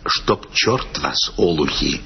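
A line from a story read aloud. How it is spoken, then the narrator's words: Whispering. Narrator (Russian): Он только сказал нам шепотом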